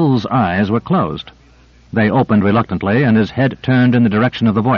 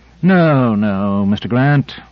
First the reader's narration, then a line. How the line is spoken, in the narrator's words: Michaels sighed wearily